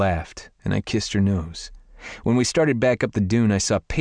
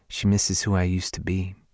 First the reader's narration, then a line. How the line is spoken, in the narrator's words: she said softly